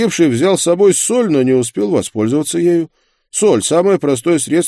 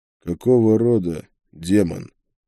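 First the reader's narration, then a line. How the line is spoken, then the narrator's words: Quiet question. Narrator (Russian): тихо спросил я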